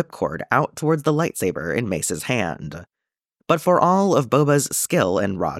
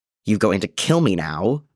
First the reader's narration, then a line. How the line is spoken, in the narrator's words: Boba snarled